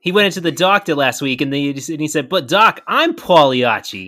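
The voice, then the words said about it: Put-on New Jersey accent. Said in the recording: “like it's like a Jersey version of Pagliacci ... Your accent was perfect. Impeccable.”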